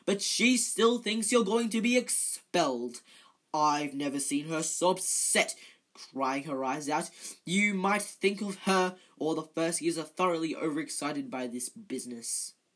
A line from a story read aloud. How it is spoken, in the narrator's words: said Percy fiercely